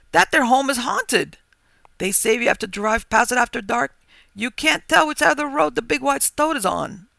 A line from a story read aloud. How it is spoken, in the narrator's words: quavered excitedly